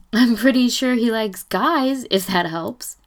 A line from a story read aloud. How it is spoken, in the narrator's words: Ryan calls after him, still giggling